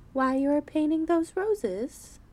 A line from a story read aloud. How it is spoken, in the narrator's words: said Alice a little timidly